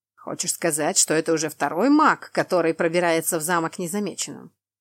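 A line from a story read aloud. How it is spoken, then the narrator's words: Snort. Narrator (Russian): фыркнул Тамаш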